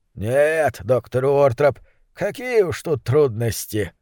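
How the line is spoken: Grumbling. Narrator (Russian): буркнул верный мистер Фолк

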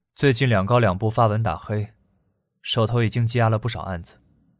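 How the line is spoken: Flat, indifferent. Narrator (Chinese): 唐一川淡淡地说

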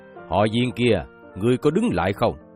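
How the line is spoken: Sharp shout. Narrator (Vietnamese): Trác Thiên Hùng quát lên

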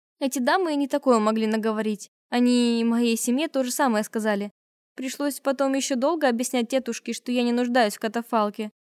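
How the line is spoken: Speaking through laughter. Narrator (Russian): сквозь смех смогла выговорить я

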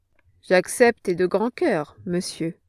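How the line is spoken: Plain. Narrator (French): répondit mon oncle

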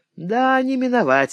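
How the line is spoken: Quiet reply. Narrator (Russian): отвечали тихо другие

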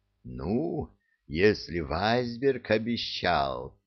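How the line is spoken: Meaningful drawl. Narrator (Russian): многозначительно протянул Стив

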